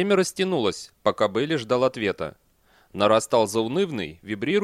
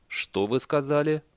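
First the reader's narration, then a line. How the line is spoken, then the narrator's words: Unnaturally calm voice. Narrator (Russian): Бейли неестественно спокойным голосом сказал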